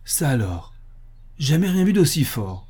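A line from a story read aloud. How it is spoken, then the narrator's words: Exclaiming. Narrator (French): s'exclama Harris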